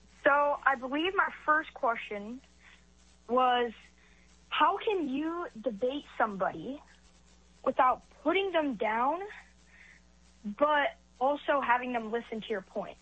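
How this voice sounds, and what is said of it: Young-sounding voice. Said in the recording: “you sound young”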